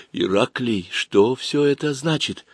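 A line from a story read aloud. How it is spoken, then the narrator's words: Very quiet female voice. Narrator (Russian): женский голос произнес, на этот раз совсем тихо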